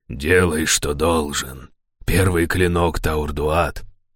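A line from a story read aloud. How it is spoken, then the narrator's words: Hoarse leader's voice. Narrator (Russian): хрипло проговорил предводитель стражей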